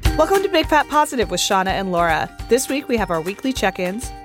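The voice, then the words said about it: Impaired voice with limited high range. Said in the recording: “I'm still not 100% with my stupid voice ... I can get a little higher now, but not like super high”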